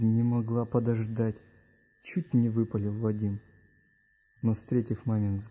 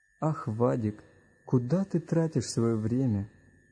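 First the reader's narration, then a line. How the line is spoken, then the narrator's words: Mother's sigh. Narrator (Russian): вздохнула мама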